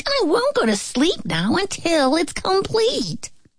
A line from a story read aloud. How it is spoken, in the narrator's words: the little pig squeaked